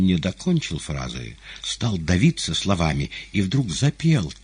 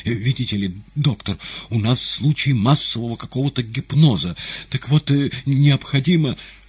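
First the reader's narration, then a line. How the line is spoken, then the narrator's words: Embarrassed stutter. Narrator (Russian): секретарь филиала и, видимо, сгорая от стыда и смущения, заговорил, заикаясь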